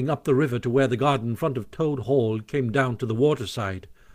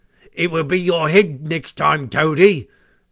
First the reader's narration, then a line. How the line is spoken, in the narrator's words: they called out to him